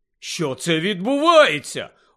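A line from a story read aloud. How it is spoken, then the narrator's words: Stunned exclamation. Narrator (Ukrainian): ошелешено вигукнув Рон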